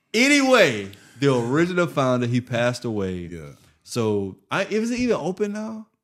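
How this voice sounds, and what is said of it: Bermudian accent. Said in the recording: “I'm Bermudian, bro ... It's an accent.”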